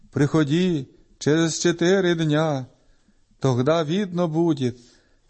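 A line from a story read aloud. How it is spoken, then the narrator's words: Plain. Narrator (Russian): сказал Исаия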